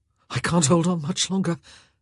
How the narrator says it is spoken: gasped

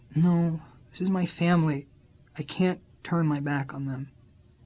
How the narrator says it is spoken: she just sighed and said

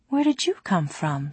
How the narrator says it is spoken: she asked softly

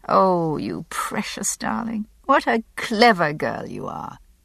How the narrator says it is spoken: murmuring to the top of her red fuzzed head

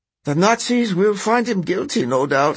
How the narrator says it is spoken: she says with a sigh

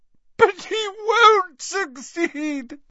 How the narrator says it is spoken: sobbed Narcissa

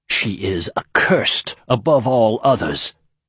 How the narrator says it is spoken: Diloph hissed

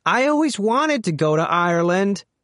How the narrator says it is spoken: Stupak shouted over the music

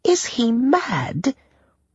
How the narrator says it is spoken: Sadie whispered

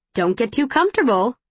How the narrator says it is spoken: she chirps

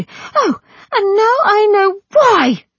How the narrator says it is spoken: Mercy cried out

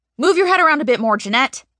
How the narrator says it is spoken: the creator yells from off camera

